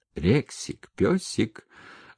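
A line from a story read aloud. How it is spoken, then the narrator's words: Affectionate calling. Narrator (Russian): ласково позвала Маша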